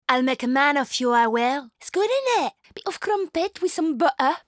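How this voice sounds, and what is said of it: Clumsy put-on English accent. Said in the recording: “I'm just bloody French. I'm trying to be English. I'm trying to do some kind of accent that I can't bloody figure out.”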